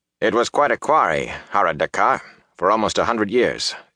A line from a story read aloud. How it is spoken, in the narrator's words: Ingtar said bitterly